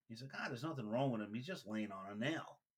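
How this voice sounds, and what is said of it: Put-on Southern accent, not convincing. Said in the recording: “I like when you tell it with your little Southern accent. ... I can pull it off. ... Not really.”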